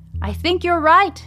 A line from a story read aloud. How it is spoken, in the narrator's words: she shouts back to Lucas